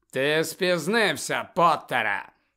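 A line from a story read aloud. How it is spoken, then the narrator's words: Cold. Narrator (Ukrainian): холодно промовив Снейп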